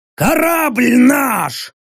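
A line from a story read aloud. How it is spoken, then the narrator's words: Tired roar. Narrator (Russian): проревел Рек, устало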